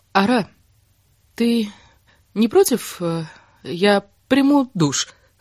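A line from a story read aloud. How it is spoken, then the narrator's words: Forced out, cold lips. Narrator (Russian): выдавила она посиневшими губами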